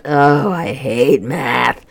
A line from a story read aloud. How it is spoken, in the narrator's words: groaned Lorelei